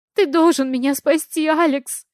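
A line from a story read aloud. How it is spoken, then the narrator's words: Sobbing. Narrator (Russian): всхлипывает Диана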